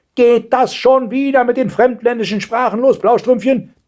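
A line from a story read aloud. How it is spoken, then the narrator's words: Grandmother thundering. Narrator (German): donnerte die Großmutter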